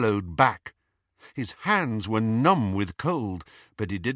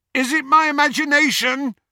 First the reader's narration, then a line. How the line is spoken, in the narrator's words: shouted Ron, after a considerable stretch of silence